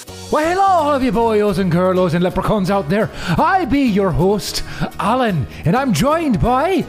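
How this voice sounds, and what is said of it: Stereotypical Irish accent drifting Scottish. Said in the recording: “I can't do it with an Irish accent ... this is very much a stereotypical accent that comes from the film itself ... You went Scottish ... It's become Scottish in this moment.”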